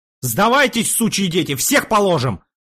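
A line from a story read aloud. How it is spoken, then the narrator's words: Full-throated yell. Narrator (Russian): заорал во все горло Пожарский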